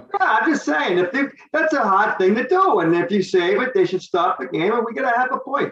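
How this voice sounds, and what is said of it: Boston accent. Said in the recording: “Boston accent”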